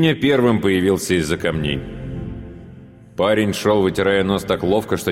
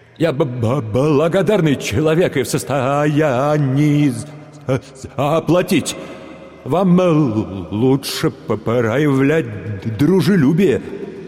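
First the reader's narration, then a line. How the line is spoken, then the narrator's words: Somewhat hesitant. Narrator (Russian): как бы несколько неуверенно добавил он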